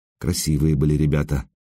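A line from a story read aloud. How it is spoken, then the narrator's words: Quiet reply. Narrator (Russian): тихо ответила Александра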